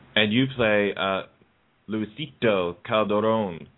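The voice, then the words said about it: Fake Spanish accent. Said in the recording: “that was like a fake Spanish accent”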